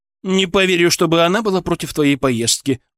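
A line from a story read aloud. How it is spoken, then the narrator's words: Snorted, mother-in-law. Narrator (Russian): фыркнула теща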